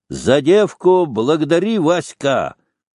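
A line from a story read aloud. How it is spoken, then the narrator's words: Shout. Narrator (Russian): Петр крикнул Волкову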